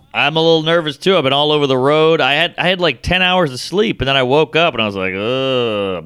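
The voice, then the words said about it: Nasal, congested-sounding voice. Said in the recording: “you sound nasally”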